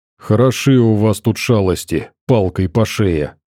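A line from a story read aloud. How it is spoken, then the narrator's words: Grumbling. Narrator (Russian): проворчал Макс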